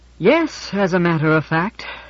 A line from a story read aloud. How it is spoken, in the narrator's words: said George, heaving an enormous sigh